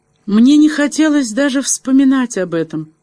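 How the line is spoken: Sobbing speech. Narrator (Russian): всхлипывая, произнесла она

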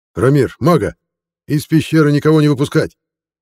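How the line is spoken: Shouted. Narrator (Russian): крикнул Бахир

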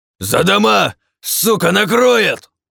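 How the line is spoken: Full-throated shout. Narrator (Russian): закричал во всю глотку БФГ

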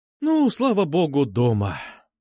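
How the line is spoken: Relieved sigh. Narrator (Russian): вздохнула мама, переступив через порог

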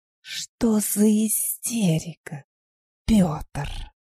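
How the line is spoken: Displeased, through gritted teeth. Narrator (Russian): недовольно процедил жрец

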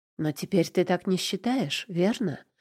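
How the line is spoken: Quiet. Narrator (Russian): Уточняю тихо

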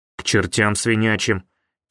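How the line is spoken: Quiet grumble. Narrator (Russian): тихо пробурчал Толик

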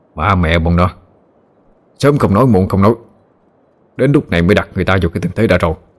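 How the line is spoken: Grumbling curse. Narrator (Vietnamese): Chú Sang lầm bầm chửi

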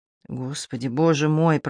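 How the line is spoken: Father muttering. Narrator (Russian): пробормотал отец

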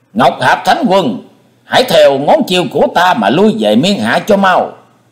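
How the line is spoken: Demonic shriek. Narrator (Vietnamese): Hải Ma giáo chủ thét lên như loài quỷ độc

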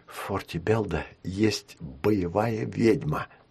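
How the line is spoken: Whispered, female. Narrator (Russian): зашептала она

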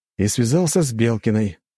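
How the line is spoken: Young prince's snort. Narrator (Russian): хмыкнул княжич

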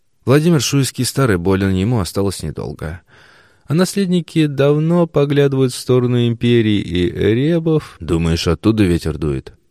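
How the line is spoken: Grim interruption. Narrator (Russian): Мрачно перебил Юрия Мстиславовича великий князь

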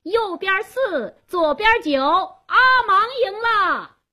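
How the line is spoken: Loud shout. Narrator (Chinese): 加斯东高声喊道

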